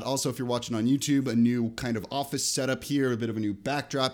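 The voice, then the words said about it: Slightly sick-sounding voice. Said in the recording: “Unless I'm super sick, you can probably hear it in my voice a little bit”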